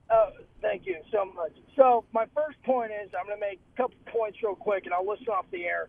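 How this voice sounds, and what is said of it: Hoarse, strained voice. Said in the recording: “Sorry about my voice. I lost it. I went to the game today, and sorry I lost it.”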